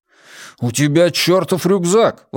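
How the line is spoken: Exclamation. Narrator (Russian): воскликнул Джеспер

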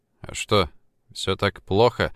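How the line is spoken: Despondent question. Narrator (Russian): уныло спросил Влад

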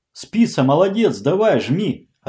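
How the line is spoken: Yelling. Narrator (Russian): орал Серега

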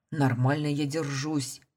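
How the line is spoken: Gruff mutter. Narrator (Russian): буркнул

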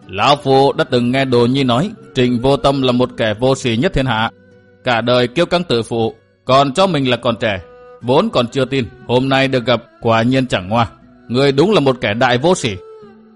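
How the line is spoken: Old man, laughing loudly. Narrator (Vietnamese): Lão nhân râu bạc ngửa mặt cười to

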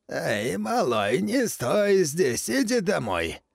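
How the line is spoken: Hoarse voice from behind. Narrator (Russian): послышался сзади хриплый голос

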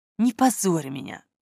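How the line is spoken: Barely audible pleading. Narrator (Russian): едва слышно взмолилась она

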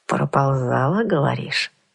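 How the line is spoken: Bandit's thoughtful repetition. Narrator (Russian): Задумчиво повторил бандит

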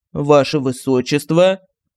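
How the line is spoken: Flat official voice. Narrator (Russian): Казенным голосом сказал офицер

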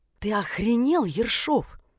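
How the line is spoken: Hissing. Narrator (Russian): прошипела она

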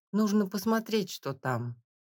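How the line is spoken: Timid. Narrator (Russian): робко произнесла Нинка

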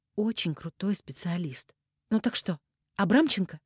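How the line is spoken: Tired cursing. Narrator (Russian): Дозорцев устало выругался

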